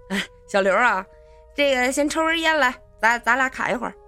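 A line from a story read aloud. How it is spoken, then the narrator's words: Smiling. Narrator (Chinese): 陈伟呢……就笑着说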